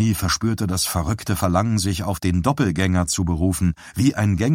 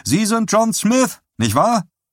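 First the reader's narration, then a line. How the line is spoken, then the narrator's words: Exclaimed. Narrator (German): rief einer von ihnen aus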